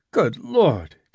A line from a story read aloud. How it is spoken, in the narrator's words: gasped Jimmy